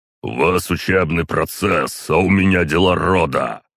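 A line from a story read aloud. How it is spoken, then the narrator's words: Growled by clan head. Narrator (Russian): рыкнул глава клана Ророговых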